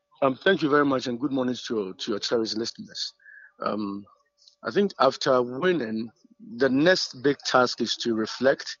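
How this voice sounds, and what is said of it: Hoarse, strained, nearly lost voice. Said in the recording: “I know you've lost your voice.”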